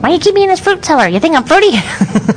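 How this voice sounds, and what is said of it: Performed character voice. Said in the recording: “you do the voice pretty well”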